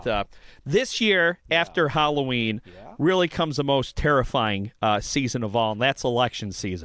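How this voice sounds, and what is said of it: Slightly hoarse voice. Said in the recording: “I'm still a little hoarse.”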